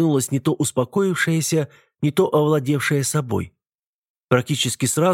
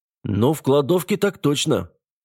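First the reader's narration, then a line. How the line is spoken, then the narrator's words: Snorting scoff. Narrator (Russian): хмыкнул Аббасов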